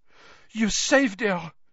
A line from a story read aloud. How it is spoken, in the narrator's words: she said breathlessly